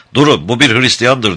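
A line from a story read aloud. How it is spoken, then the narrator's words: Shouted. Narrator (Turkish): diye bağırarak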